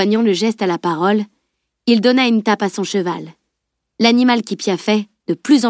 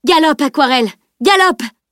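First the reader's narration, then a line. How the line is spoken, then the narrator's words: Shouted. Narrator (French): cria Camille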